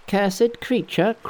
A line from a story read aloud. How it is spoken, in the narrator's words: cried Monkey